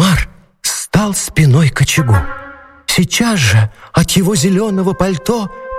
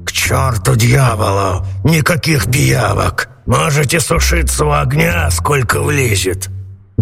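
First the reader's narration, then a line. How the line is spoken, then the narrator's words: Grumbled. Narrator (Russian): Сеньор Карабас-Барабас проворчал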